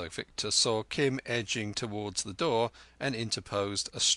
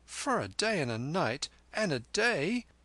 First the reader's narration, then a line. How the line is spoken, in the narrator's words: Kim pleaded